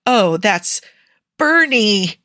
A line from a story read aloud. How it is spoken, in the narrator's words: he yelped